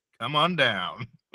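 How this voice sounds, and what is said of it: Game show host voice. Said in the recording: “So here's my game show voice.”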